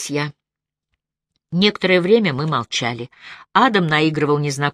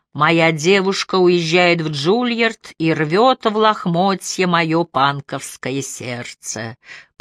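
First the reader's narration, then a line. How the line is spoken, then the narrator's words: Sung in exaggerated nasal voice. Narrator (Russian): пропел он преувеличенно гнусавым голосом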